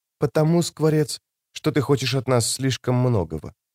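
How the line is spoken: Shaken whisper. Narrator (Russian): ее обычно спокойный взгляд дрогнул, и женщина прошептав в ответ

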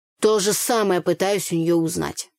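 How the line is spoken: Grumbling. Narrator (Russian): проворчал Андрей

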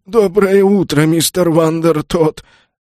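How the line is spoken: Stammering timid babble. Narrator (Russian): Слегка заикаясь, пролепетал консьерж

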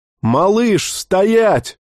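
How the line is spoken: Frightened yell. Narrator (Russian): заорал перепуганно Бер

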